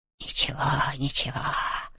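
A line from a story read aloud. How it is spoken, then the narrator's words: Soothing whisper. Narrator (Russian): нашептывал Хуго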